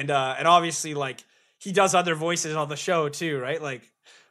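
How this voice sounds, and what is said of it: Usual voice. Nothing is said of it.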